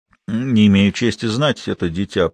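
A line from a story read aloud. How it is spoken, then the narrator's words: Grumbling mutter. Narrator (Russian): пробурчал Кензи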